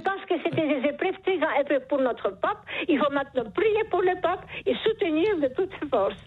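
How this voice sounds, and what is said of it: Charming noticeable accent. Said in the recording (French): “Vous avez un charmant accent ... ce joli accent”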